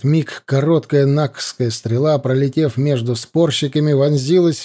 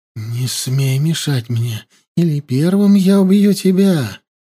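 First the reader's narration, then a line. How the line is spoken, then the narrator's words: Nauseous, hoarse rasp. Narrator (Russian): Борясь с дурнотой, прохрипела Накхини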